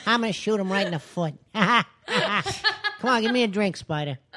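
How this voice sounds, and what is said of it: Imitates another person's voice. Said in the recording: “Oh, Pesci.”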